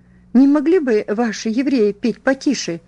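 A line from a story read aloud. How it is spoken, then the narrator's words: Indignant exclamation. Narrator (Russian): раздувая ноздри, воскликнула она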